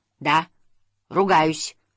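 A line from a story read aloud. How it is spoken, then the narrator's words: Barking roar. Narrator (Russian): рявкнул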